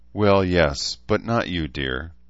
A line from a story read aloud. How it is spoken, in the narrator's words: Dene said with a chuckle